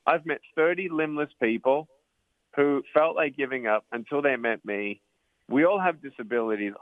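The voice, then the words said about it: Australian accent. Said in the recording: “Your Australian accent lets you speak truth, and somehow it still comes across as charming”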